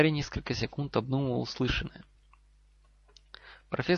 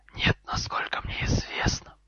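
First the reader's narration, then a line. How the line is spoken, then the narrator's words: Hissed. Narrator (Russian): прошипел Гарри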